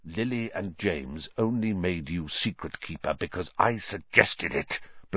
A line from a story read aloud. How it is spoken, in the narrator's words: hissed, so venomously